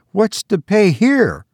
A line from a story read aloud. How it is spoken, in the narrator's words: He cried